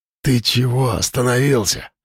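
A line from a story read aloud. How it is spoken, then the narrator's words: Whisper. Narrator (Russian): прошептал он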